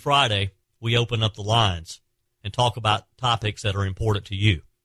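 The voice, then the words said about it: Southern accent. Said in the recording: “I love that southern accent.”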